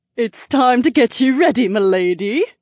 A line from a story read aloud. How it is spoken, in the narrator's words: Emily chirped